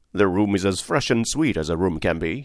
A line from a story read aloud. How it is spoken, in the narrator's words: he answered